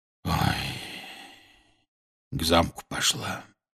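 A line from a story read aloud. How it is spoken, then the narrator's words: Quiet. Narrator (Russian): тихо сообщил он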